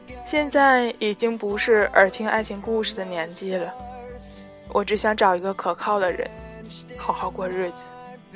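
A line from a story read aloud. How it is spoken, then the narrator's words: Calm, faint smile. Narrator (Chinese): 九姑娘淡淡的笑了笑，说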